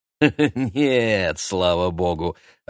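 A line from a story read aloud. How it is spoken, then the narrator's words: Laughing. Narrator (Russian): рассмеялся Юлиан Семенович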